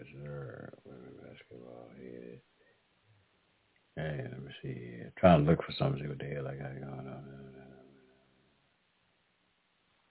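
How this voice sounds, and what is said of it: Hoarse, slightly sore voice. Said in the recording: “I'm getting hoarse up here ... I'm getting a damn sore throat a little bit”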